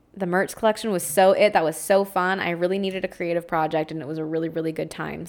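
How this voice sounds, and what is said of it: Strained voice giving out. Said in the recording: “my voice is starting to give out again”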